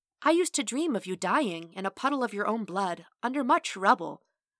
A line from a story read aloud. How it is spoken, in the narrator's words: she said sweetly